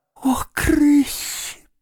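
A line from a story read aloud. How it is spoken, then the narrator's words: Groan. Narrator (Russian): простонал крот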